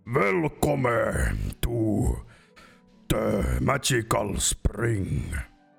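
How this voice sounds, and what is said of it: Character voice with thick accent. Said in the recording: “He speaks pretty good common. He has a really thick accent, but speaks pretty good.”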